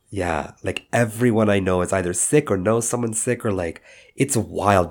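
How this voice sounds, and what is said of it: Unusually deep, sick-sounding voice. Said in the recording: “I have the flu. That's why my voice is exceptionally deep right now. And it will not be changing within like a certain octave”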